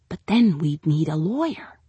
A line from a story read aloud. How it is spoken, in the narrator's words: whispered Janie